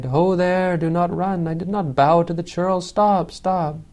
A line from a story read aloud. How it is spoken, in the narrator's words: Kewata cried